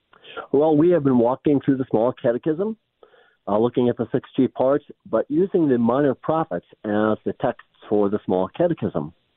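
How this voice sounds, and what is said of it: Slightly tinny, under-the-weather voice. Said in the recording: “I'm a little under the weather, so if my voice sounds tinny or something, that's the explanation.”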